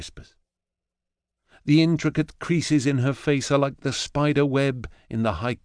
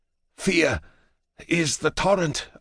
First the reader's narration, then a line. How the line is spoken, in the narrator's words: I rasp with Octavia